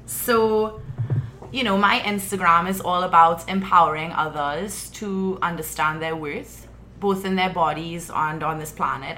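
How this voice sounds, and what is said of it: Trinidadian accent. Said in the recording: “The Trinidadian accent ... is supposed to be one of the top 10 sexiest accents in the world”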